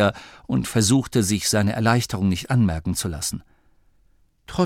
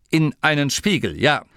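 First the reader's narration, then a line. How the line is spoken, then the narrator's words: Firm confirmation. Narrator (German): bestätigte Masklin mit fester Stimme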